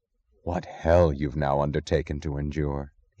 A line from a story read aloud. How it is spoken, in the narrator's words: said, his voice low